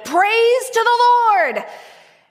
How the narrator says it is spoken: he shouted

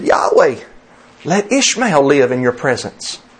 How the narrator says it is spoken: Abraham then exclaimed to Yahweh, and he said

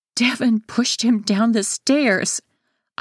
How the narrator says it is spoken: wail

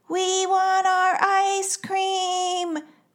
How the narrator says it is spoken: wailed Levi

